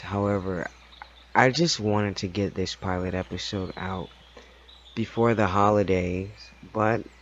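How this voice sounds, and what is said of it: Worn out, weary voice. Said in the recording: “I am just feeling completely and utterly worn out emotionally, and I'm pretty sure that you can hear that in my voice.”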